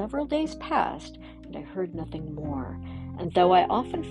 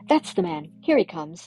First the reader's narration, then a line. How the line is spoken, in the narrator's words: cried the foremost one, whom I recognized as the lawyer